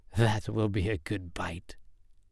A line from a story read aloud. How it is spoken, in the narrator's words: she muttered to herself